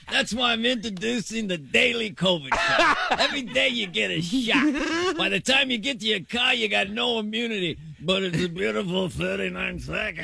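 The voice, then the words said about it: Skilled impersonation of someone. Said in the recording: “It's a great impersonation, too.”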